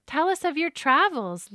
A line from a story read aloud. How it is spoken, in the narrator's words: Lily begged